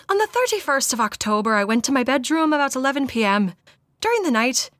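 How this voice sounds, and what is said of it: Attempted Irish accent. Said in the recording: “I'm gonna try an Irish accent”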